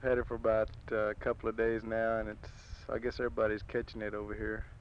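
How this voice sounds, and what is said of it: Congested voice from a cold. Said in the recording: “if you can hardly understand me, it's I have a cold.”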